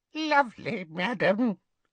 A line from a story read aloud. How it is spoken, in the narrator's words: squeaked Hokey